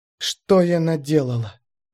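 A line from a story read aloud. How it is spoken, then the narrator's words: Whispered. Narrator (Russian): зашептала Шекет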